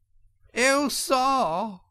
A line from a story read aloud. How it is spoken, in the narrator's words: cried the toad, crying afresh